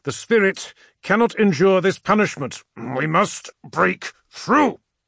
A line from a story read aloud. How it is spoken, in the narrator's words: he spat back through his filed teeth